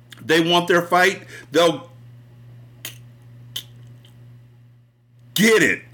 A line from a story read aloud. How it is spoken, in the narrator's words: I heard Alphonse yell out